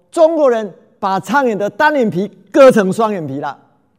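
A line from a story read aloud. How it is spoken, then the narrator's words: Loud announcement. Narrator (Chinese): 大声的宣布说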